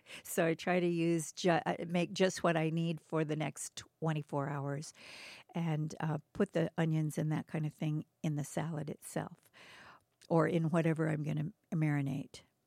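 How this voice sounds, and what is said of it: Hoarse voice. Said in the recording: “I'm getting hoarse because I'm having to talk.”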